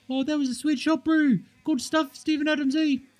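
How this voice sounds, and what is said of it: Put-on Kiwi accent. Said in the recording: “if they did like a Kiwi accent”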